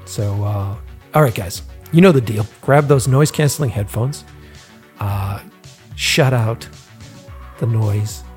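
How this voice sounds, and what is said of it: Boston accent. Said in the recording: “he's a fellow Boston boy... We make fun of my accent. We make fun of the Boston accent.”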